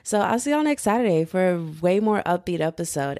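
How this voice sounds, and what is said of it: Sad, heavy-sounding voice. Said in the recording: “you can hear it in my voice ... I sound really sad”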